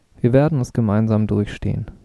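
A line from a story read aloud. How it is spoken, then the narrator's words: Calm. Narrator (German): sagten sie ruhig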